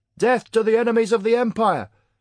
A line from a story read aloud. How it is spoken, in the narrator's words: cried some enthusiastic patriot in the audience